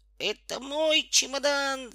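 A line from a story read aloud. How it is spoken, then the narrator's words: Shouting boy. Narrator (Russian): закричал Петька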